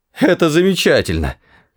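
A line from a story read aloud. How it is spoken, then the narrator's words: Wheezing, hoarse. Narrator (Russian): хрипел Артур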